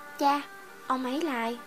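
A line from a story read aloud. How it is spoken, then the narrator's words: Soft, puzzled question. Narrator (Vietnamese): tỷ ta … nhíu mày, khẽ hỏi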